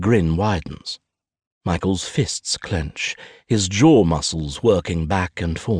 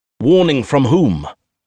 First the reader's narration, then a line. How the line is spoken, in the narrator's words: Michael booms